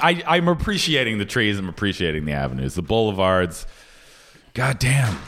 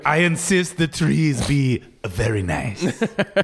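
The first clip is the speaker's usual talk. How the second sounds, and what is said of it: Poor put-on French accent. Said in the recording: “That's not even a good French accent.”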